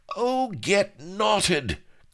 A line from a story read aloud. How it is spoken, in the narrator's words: cried Bilbo, out of all patience